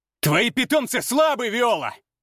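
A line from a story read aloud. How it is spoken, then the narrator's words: Shout. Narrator (Russian): крикнул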